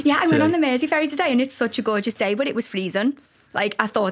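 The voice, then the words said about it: Scouse Liverpool accent. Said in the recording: “straight-talking Scouse”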